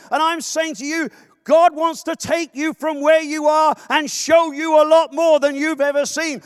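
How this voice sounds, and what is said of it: British accent. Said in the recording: “you've heard my accent ... People always come up to me and say, I detect an accent ... the British”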